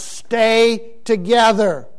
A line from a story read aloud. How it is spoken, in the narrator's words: yells